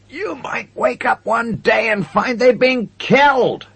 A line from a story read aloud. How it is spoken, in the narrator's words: shouted